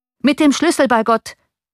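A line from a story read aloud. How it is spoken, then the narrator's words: Coachman calling out. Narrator (German): rief der Kutscher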